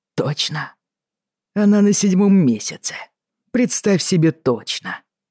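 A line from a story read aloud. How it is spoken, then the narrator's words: Through gritted teeth. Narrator (Russian): процедил Джейми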